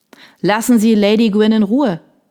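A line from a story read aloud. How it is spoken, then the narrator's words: Called out. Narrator (German): rief Major Wolf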